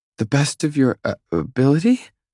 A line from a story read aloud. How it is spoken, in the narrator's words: She stutters